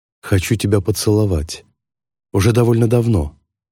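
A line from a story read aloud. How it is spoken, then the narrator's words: Low husky near-whisper. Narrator (Russian): говорит он низким хриплым голосом, практически шепотом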